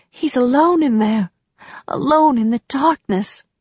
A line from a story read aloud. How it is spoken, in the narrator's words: whispered